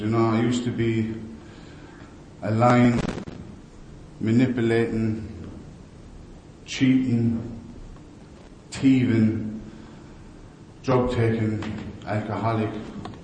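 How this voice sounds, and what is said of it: West of Ireland accent. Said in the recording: “I grew up in the west of Ireland. That's where I got the funny accent.”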